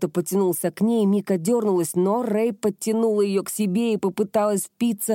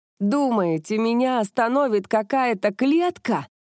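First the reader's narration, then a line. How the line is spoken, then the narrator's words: Laughing. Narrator (Russian): захохотала Рэй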